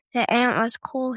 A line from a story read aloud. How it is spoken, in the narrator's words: said